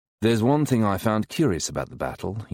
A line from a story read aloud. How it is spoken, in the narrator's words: says icily